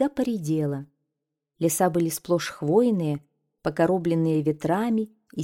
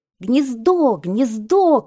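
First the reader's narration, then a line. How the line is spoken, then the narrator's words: Children shouting. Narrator (Russian): кричали ребята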